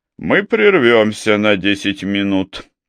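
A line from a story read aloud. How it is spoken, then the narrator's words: Tired. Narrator (Russian): устало произнес сэр Уильям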